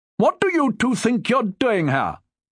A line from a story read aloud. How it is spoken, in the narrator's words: Julius shouted indignantly